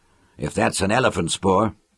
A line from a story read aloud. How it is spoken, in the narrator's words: muttered Lauren